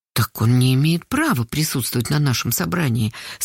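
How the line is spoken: Very quiet. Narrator (Russian): совсем тихо сказала Карпушкина

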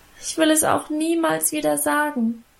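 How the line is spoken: Continued whining. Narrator (German): jammerte weiter

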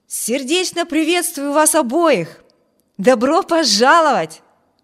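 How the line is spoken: Exclamation. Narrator (Russian): воскликнул Виберт

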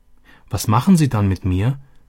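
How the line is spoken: Anxious question. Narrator (German): erkundigte sich Robby ängstlich

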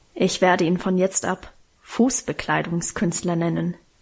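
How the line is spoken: Grumbled. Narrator (German): brummte sie dann

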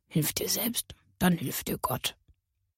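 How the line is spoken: Quiet murmur. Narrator (German): hörte Carla ihn leise murmeln

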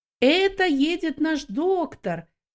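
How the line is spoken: Shouting. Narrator (Russian): некоторые из них кричали

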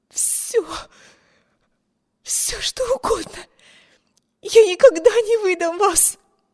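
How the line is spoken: Desperate breathless gasp. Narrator (Russian): Выдохнула Эми, хватаясь с жадностью утопающего за надежду на спасение

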